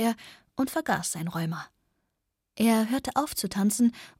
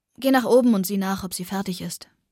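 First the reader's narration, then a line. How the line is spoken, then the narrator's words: Plain. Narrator (German): sagte mein Vater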